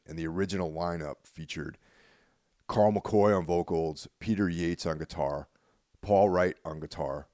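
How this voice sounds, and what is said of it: Froggy, hoarse sick voice. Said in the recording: “I'm under the weather a little bit, so my voice is a little froggy right now”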